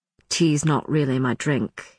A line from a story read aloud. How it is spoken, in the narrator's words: he said, his voice dropping slightly